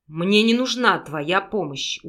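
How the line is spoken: Stubborn, through gritted teeth. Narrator (Russian): упрямо процедил оборотень

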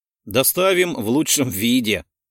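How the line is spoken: Said with a chuckle. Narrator (Russian): хохотнул

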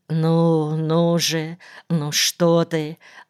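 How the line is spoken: Mumbling. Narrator (Russian): бормотал Никольский

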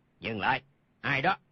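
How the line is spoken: Guards shouting. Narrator (Vietnamese): hai vệ sĩ quát lên

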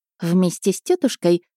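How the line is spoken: Wry snort. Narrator (Russian): хмыкнула баронесса Мельнихт

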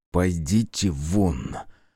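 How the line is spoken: Through gritted teeth. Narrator (Russian): процедил сквозь зубы Руднев

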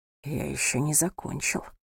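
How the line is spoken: Whisper. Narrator (Russian): прошептал

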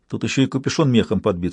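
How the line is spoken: Plain. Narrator (Russian): сказала она

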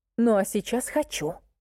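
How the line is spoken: Hissed. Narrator (Russian): прошипела я

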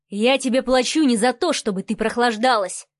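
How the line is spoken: Thunderous bark. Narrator (Russian): рявкнул Адмиралов так, что будь стекла на окнах менее прочные, то они разлетелись бы на мелкие осколки

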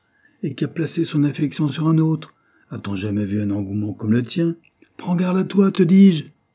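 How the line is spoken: Shouting. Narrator (French): cria Henry

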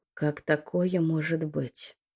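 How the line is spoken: Surprised whisper. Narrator (Russian): Удивленно прошептала Лючия

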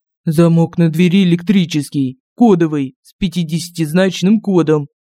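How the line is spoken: Plain. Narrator (Russian): ответил он

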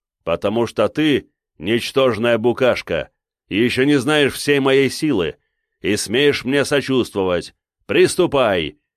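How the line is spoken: Barking. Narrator (Russian): рявкнул я ему

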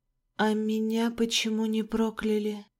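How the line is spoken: Whisper. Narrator (Russian): прошептала

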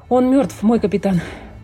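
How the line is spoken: Sailor's breathed words. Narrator (Russian): выдохнул матрос

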